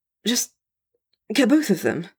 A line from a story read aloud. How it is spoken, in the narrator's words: Noctis says a little desperately